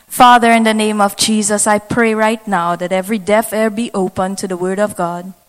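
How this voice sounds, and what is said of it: Trinidadian accent. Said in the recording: “I could talk like a trini, but you probably wouldn't understand me... I hope you understand my accent.”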